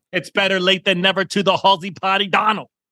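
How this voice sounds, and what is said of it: Yelling, loud excited voice. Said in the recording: “Why are you yelling, man? Calm down, dude. ... I'm screaming off the top.”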